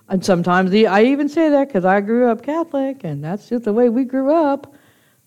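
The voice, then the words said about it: Mumbled, unclear speech. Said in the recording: “I'm mumbling too much there.”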